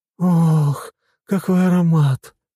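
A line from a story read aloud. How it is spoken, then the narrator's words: Moaning. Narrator (Russian): простонала Марина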